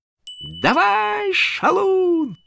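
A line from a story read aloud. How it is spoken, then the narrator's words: Screaming. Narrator (Russian): завопила она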